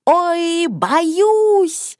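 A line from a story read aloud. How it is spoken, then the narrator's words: Old woman shouting. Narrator (Russian): бабушка закричала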